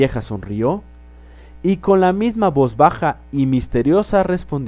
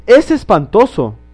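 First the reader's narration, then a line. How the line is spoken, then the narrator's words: Exclamation. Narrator (Spanish): exclamó la señora Otis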